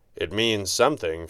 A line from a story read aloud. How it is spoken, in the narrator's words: Fenwick said, his voice sounding tired